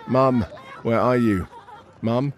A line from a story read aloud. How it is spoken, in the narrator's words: a young boy fearfully sobs